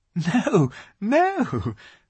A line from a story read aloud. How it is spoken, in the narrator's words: said Lucy, laughing